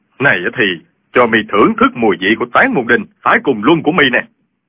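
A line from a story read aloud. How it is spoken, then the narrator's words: Furious shout. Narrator (Vietnamese): Y cả giận quát lên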